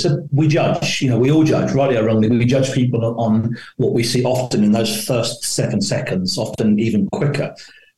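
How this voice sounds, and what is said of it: London accent. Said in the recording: “I was born in London, lived on a council estate. My accent isn't as maybe as dulcet as I like it to be.”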